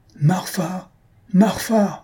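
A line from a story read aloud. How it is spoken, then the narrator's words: Professor shouting loudly. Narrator (French): s'écria le professeur à pleine voix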